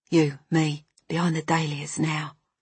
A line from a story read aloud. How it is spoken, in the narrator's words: he would whisper